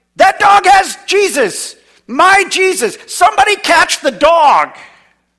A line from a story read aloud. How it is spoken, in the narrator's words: shouting